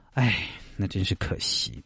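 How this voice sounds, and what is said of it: Said very quietly, under breath. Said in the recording (Chinese): “这句话说的很小声”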